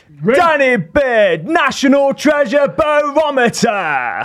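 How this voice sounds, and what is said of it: Dramatic TV talent-show announcer voice. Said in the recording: “my best X Factor announcement ... I actually thought that was a really good X Factor impression ... It just needs to be deeper.”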